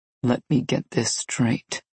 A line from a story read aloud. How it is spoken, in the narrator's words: Nikolai said so calmly